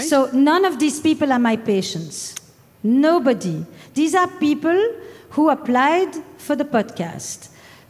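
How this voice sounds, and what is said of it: Foreign accent. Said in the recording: “nice to hear another accent here”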